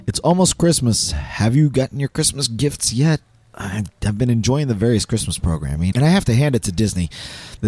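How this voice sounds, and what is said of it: Hoarse, partly lost voice. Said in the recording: “apologize for my voice. I lost it earlier this week, and it just has not returned yet”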